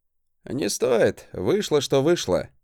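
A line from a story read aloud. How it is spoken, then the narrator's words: Dry snort. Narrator (Russian): хмыкнул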